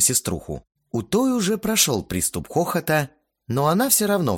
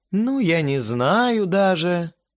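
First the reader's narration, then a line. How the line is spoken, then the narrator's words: Drawl. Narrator (Russian): протянула та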